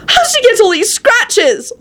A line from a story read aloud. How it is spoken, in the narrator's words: Elizabeth yelled